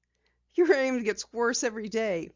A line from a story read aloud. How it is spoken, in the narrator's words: Penny chuckled